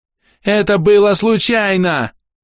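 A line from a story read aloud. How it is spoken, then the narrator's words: Sudden shout. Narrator (Russian): внезапно закричал Гобля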